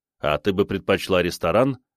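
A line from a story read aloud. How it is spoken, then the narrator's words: Snort while exercising. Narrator (Russian): хмыкнул я, занятый в это время разминкой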